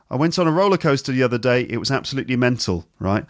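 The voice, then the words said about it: Rough put-on Newcastle accent. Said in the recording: “It's a sort of a rough version of a Newcastle accent.”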